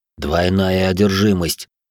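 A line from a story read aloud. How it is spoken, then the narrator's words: Through gritted teeth. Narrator (Russian): процедил отец Павел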